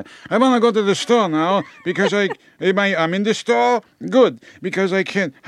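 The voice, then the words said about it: Put-on Jewish accent. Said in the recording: “a Jewish accent ... They for some reason they get a Jewish accent.”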